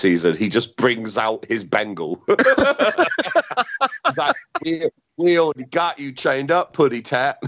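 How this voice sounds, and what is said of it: Put-on accent. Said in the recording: “what was that accent?”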